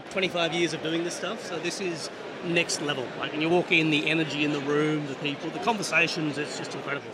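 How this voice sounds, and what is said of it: Australian accent. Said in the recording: “our viewers will be picking up on your accent ... Australian company ... Aussie roots”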